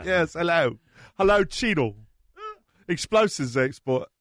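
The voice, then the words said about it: Don Cheadle's put-on British accent. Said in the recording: “Cheadle with a British accent.”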